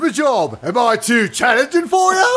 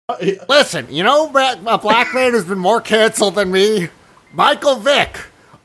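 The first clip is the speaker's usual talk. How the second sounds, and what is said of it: Dave Chappelle impression. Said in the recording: “Do the Chappelle voice again. ... here's Dave Chappelle.”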